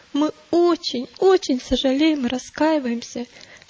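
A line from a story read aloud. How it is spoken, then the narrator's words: Sobbing. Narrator (Russian): всхлипнул несчастный христианин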